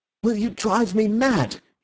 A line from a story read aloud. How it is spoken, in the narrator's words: He cried